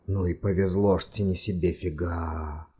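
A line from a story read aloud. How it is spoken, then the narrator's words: Whisper. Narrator (Russian): наконец прошептал один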